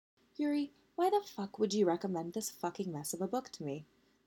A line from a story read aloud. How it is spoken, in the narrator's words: Victoire asked serenely